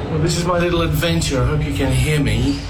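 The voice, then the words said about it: British English accent. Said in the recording (Spanish): “Tan bonito el acento británico.”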